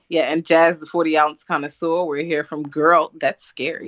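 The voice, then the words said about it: Southern American accent. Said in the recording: “we are American-based. If you can't tell by the accent, I'm Southern.”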